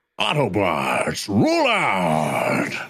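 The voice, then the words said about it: Peter Cullen as Optimus Prime. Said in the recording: “my Peter Cullen impression”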